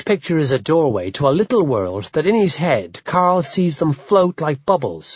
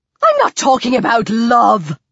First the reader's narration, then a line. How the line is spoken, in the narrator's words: Carl's mom shouts at Carl's dad